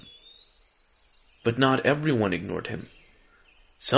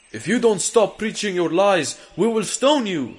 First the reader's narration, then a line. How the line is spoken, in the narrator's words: shouted